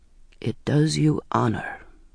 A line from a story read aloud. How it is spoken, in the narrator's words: he said very quietly